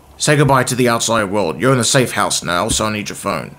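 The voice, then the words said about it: Serious deadpan character voice impression. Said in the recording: “I often imagine Captain Holt... Yeah, so serious... I love the way he speaks as well... What a great voice... give us a rendition of the voice? Can you give us an impersonation?”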